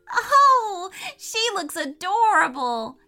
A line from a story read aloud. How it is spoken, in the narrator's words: cried Lydia with joy